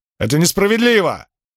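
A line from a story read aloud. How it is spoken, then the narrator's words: Shouted. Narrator (Russian): выкрикнул один из членов команды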